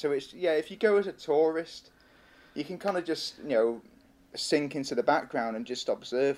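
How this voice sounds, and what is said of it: British accent. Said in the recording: “you can tell by the accent, is from the UK”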